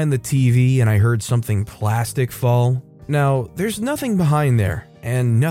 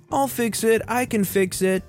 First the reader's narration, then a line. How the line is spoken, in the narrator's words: entitled boy yelled